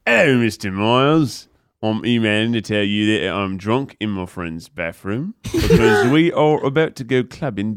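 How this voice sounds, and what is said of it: Slinky put-on British accent. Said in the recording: “read it in a slinky British accent”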